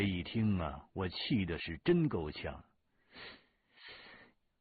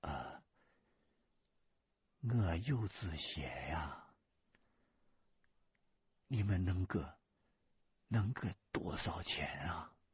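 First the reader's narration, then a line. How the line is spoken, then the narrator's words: Quiet voice. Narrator (Chinese): 李春来小声说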